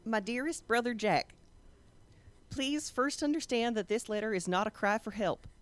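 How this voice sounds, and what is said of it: Reads aloud in put-on accent. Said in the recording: “read this to the group in the accent ... do the accent”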